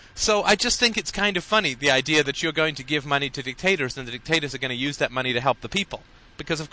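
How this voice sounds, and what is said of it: Usual voice. Nothing is said of it.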